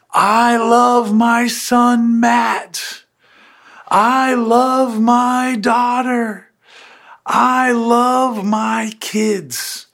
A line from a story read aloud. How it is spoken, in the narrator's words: a Heavenly Father that would yell out to the world